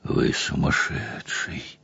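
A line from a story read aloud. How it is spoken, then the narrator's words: Weary. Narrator (Russian): Устало произнес Лоуман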